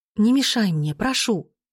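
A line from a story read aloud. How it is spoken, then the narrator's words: Pleading. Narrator (Russian): взмолилась я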